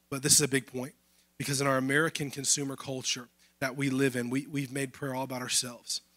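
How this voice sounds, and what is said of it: Strained, failing hoarse voice. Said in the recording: “Sorry, I'm losing my voice.”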